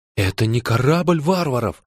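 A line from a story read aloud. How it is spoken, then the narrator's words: Frightened whisper. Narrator (Russian): испуганно прошептал Джо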